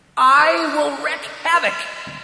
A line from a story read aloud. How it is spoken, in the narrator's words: shouted Hugh into the darkness